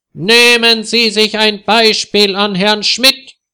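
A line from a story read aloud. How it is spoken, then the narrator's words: Shouting. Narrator (German): schreit Herr Ungewitter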